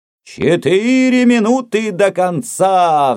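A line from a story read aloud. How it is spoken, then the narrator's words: Roar. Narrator (Russian): взревел Рокки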